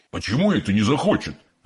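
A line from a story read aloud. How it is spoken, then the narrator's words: Offended exclamation. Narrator (Russian): обиженно воскликнул мистер Глуп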